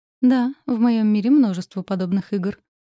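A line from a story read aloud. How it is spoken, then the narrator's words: Muffled. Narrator (Russian): глухо ответила я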